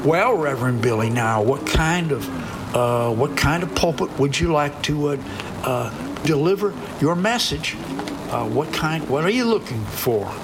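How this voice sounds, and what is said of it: Put-on Tennessee accent. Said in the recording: “I don't know if that's a Tennessee accent or not”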